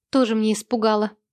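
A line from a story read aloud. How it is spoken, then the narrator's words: Scoffing reply. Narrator (Russian): хмыкнула в ответ Лиза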